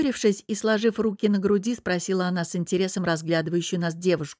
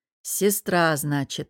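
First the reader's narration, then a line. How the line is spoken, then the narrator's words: Unfriendly grumble. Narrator (Russian): недружелюбно проворчала Лара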